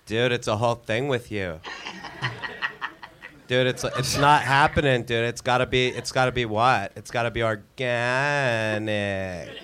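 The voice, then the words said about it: Imitates another person's voice. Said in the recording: “your Pauly Shore impersonation ... Could you do that voice”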